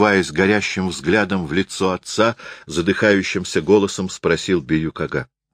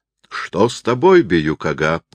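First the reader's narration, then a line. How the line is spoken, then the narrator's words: Astonished exclamation. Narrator (Russian): изумленным голосом воскликнул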